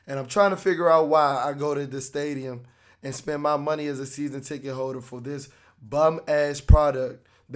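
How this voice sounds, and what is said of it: Slightly hoarse voice. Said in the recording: “my voice is still a tad bit hoarse”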